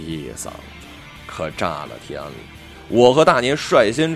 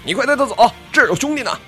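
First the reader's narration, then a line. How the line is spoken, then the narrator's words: Urgent shout. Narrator (Chinese): 猴子急眼了，高喊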